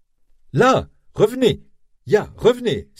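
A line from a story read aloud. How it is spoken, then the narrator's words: Exclaimed. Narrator (French): s'écrie-t-il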